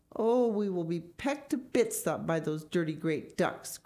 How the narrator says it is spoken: cried Mrs

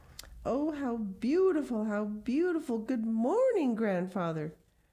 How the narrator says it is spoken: cried Heidi

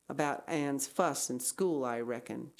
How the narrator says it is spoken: she said

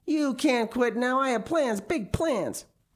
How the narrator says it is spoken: he shouted

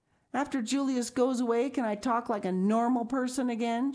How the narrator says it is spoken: She shouted

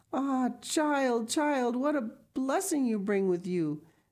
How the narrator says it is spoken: the old woman exclaimed

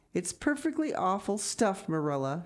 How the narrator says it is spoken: groaned

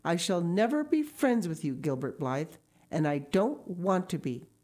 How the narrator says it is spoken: said coldly

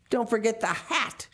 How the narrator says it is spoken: she snapped

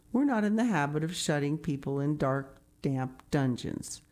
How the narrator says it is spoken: said Marilla dryly

